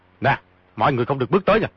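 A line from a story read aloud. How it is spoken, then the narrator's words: Shouting. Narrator (Vietnamese): quát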